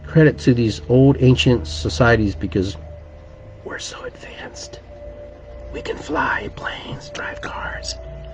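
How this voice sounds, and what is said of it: Whispering. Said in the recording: “Why am I whispering?”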